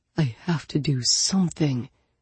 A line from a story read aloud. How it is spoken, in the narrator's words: he murmured